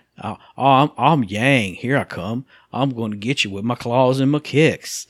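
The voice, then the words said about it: Put-on Southern American accent. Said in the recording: “I made him like a Southern guy”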